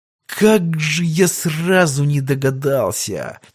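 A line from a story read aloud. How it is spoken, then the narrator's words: Near moan. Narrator (Russian): чуть ли не простонал Иван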